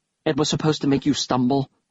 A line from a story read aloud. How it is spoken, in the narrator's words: I said